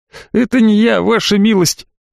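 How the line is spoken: Mournful wail. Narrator (Russian): Эконом горестно взвыл

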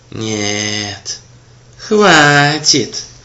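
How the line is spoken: Sudden angry creak. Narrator (Russian): Вдруг проскрипел он злобно

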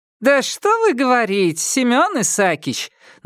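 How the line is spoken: Mocking retort, lively woman. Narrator (Russian): насмешливо возразила бойкая веснущатая тетка

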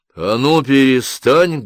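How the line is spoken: Loud bark. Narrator (Russian): гаркнул Юси Пекало

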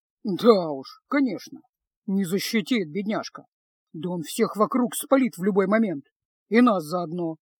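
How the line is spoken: Quiet grumbling. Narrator (Russian): тихо пробурчал Кайл

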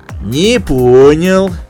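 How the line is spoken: Menacing drawl, fat man. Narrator (Russian): угрожающе протянул толстяк

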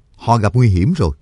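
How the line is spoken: Stern voice. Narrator (Vietnamese): Cương Nhật Phổ Bạc nghiêm giọng nói

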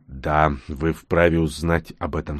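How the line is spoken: Calmly agreed. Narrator (Russian): спокойно согласился Нкот

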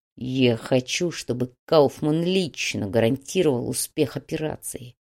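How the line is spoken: Muffled, hollow voice. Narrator (Russian): глухо произнес Фадеев

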